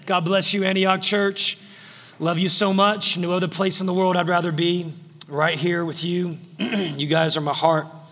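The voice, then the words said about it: Strained, worn voice. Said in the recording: “Forgive my voice. It's a little, I don't know. Yeah, some crazy guy was up here screaming earlier this morning.”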